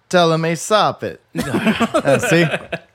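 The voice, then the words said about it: Weak put-on Italian accent, higher register. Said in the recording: “I'm kind of bad at my accent sometimes ... try one. Italian ... In the higher register”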